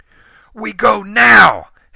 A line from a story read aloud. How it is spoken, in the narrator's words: Helen yelled